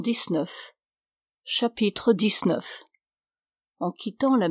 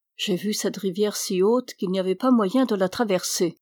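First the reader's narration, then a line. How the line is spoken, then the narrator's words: Plain. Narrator (French): dit Alessandro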